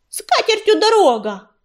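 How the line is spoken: Yelled after him. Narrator (Russian): завопила ему вслед Белочка

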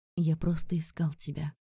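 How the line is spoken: Barely audible whisper. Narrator (Russian): прошептал так тихо, что этого не слышал никто

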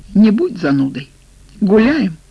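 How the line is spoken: Cheerful exclamation. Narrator (Russian): воскликнула она

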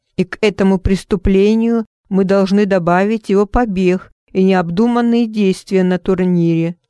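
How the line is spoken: Grumbling. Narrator (Russian): заворчал Роберт

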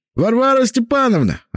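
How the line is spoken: Man yelling. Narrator (Russian): орал мужик с брюшком

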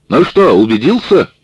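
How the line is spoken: Sergeant shouting. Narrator (Russian): крикнул сержант

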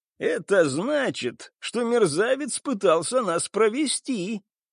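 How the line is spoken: Pleased loud laughter. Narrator (Russian): расхохоталась пиратка, крайне довольная ситуацией

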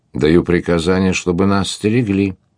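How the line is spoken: Calm chief answering. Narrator (Russian): спокойно ответил вождь

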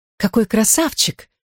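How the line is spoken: Young woman's whisper. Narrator (Russian): прошептала юная герцогиня Шартерская, мадам Люцифер

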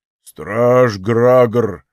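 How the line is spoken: Booming voice. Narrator (Russian): прогудел

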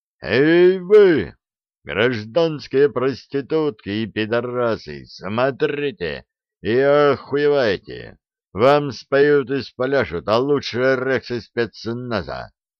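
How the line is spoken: Thunderous yell. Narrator (Russian): Тимоха громовым голосом заорал

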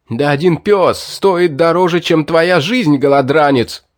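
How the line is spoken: Fat man's angry yell. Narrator (Russian): Завопил толстяк

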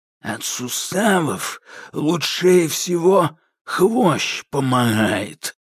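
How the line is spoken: Creaky, like old samovar. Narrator (Russian): проскрипел Кощей, как старый самовар

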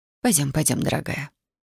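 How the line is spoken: Sympathetic whisper. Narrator (Russian): сочувственно прошептала медсестра

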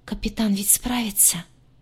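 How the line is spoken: Hopeful whisper. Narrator (Russian): с надеждой прошептала лагартианка

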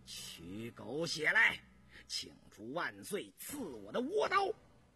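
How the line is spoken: Gritted-teeth sinister laugh. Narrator (Chinese): 印四咬牙狞笑着

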